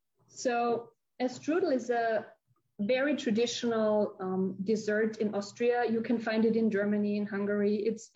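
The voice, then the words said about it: Foreign accent. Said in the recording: “your magnificent accent”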